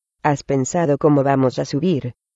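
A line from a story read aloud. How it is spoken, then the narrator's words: Plain question. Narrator (Spanish): preguntó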